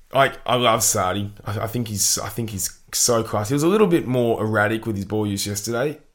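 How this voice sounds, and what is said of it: Rusty, strained voice. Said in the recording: “Gee, my voice is rusty today ... we were shouting a lot yesterday”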